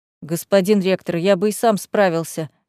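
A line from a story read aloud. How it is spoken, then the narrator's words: Displeased grumble. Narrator (Russian): недовольно буркнул физрук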